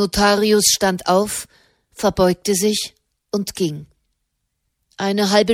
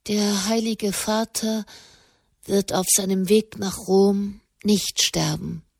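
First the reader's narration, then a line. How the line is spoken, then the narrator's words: Said quietly. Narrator (German): sagte leise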